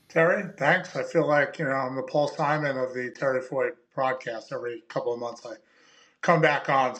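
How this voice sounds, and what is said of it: Long Island accent. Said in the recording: “my Long Island accent”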